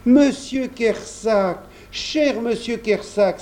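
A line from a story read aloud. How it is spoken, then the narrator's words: Cried out. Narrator (French): s'écria Jean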